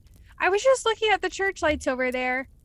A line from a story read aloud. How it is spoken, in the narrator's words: she exclaimed, trying to deflect the conversation